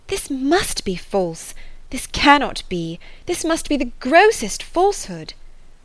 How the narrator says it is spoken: She wished to discredit it entirely, repeatedly exclaiming

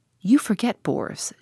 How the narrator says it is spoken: she said

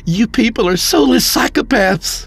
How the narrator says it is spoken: Mark shouted

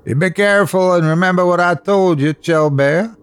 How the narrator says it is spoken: I hollered after her

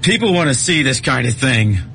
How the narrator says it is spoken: Gibbon shouted after him

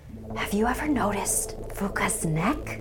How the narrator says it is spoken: whispered

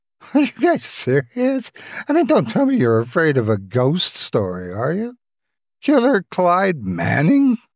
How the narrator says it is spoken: She chuckled in sarcasm

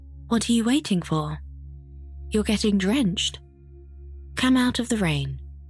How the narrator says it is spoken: the woman said kindly

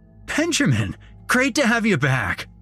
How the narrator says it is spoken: he basically shouted

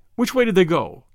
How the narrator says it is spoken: snapped Valentine

